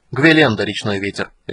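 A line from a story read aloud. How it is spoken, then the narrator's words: Sharp. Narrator (Russian): резко сказала Золотая Луна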